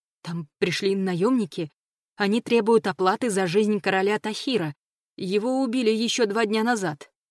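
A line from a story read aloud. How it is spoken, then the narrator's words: Trembling, strained guard. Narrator (Russian): дрожащим голосом с трудом проговорил страж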